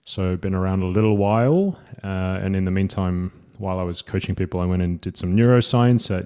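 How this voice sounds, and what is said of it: Subtle Australian accent. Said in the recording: “a subtle Australian accent”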